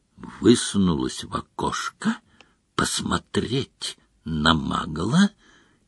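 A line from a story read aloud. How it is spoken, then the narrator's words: Quiet questioning. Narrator (Russian): тихо переспросил Мракс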